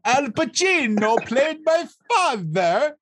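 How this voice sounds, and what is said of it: Over-the-top fake accent. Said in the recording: “It's like, so over the top, man ... How did the accent go again? ... Just do the accent one more time ... That's exactly what he sounded like the whole time. It was so bad.”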